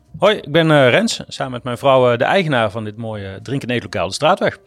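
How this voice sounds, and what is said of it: Brabant Dutch regional accent. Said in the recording (Dutch): “Mooi Brabants accent, maar dat vergroeit niet. Dit is mijn beste ABN, dus beter dan dit gaat het niet worden.”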